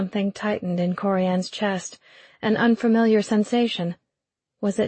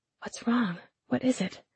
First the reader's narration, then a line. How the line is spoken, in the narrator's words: she whispered